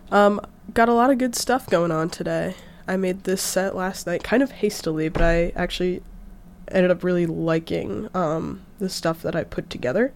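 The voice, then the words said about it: Rough, sick-sounding voice. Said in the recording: “Excuse my voice, I'm feeling a little under the weather... I sound a little nasty”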